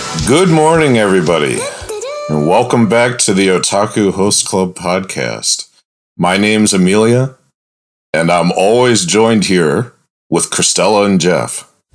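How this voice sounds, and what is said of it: Unusually deep voice. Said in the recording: “your voice has gotten way deeper ... Did you have a wild binger last night? Did you do bar hopping and destroy your body?”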